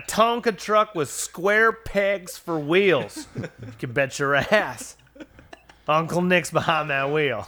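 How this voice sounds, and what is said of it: Put-on angry Southern accent. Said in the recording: “The southern accent is so satisfying ... you can be very angry in it and it sounds fun”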